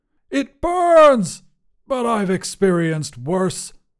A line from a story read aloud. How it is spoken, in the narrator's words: Granvois shouted